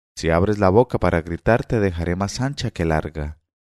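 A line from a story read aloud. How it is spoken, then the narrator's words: Stifled menacing voice. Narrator (Spanish): diciéndole con voz sofocada y amedrentadora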